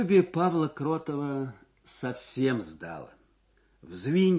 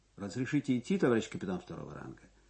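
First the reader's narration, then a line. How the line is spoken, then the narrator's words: Dry question. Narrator (Russian): Кротов сухо спросил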